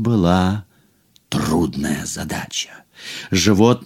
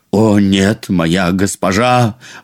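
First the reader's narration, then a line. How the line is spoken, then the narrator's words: Exclaiming. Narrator (Russian): воскликнул он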